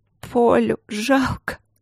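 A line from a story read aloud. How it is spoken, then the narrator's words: Sobbing. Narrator (Russian): Она всхлипнула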